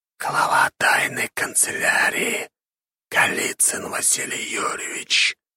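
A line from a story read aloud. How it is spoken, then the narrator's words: Hissed. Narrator (Russian): прошипела голова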